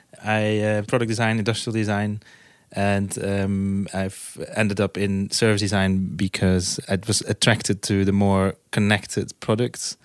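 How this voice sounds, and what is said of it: Dutch accent. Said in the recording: “I'm from Holland, from the Netherlands. You might hear from my accent.”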